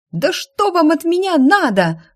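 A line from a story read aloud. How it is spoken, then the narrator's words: Shriek. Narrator (Russian): взвизгнула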